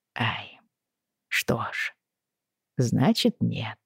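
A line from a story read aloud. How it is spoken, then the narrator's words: Mumbling. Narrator (Russian): пробормотал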